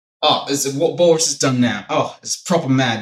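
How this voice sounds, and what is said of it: Put-on British accent. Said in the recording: “I used to have a British accent... why didn't you just keep the British accent”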